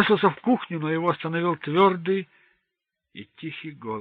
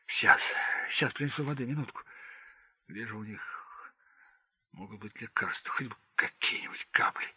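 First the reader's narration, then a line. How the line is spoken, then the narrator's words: Muttering. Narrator (Russian): Майор бормоча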